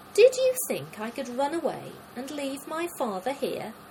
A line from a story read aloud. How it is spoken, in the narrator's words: exclaimed